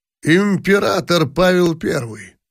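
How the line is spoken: Solemn speech. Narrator (Russian): торжественно сказал Бениксон

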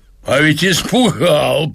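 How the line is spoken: Said, then delighted laughter. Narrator (Russian): проговорил мужчина и захохотал от удовольствия

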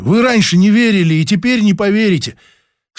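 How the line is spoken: Pleading. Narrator (Russian): Взмолился

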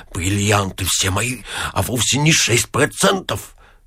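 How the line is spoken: Mutter. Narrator (Russian): бормоча

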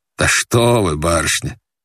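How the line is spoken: Old man laughing. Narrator (Russian): засмеялся старик

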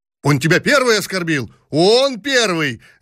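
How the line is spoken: Riders shouting in chorus. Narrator (Russian): закричали хором всадники

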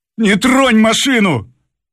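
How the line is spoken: Driver shouting. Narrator (Russian): крикнул шофер

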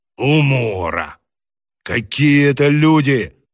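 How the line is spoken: Irritated interjection. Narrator (Russian): вставил раздраженно толстогубый

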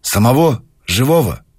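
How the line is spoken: Sighing. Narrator (Russian): Савушкин вздохнул

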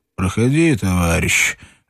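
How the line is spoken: Lazy, clear voice. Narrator (Russian): ответил лениво отчетливый голос

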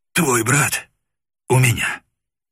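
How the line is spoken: Hoarse wheeze. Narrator (Russian): просипел моряк

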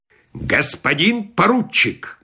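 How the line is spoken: Menacing. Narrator (Russian): грозно сказал полковник Краус

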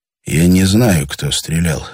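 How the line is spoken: Quiet. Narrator (Russian): сказал тихо Андрей Витасу

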